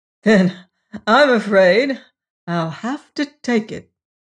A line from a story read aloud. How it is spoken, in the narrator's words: said Probyn with a reckless laugh